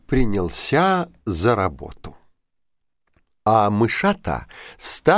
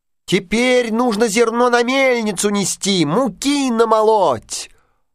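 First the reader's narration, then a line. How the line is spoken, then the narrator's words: Squeaking in unison, little mice. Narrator (Russian): запищали в один голос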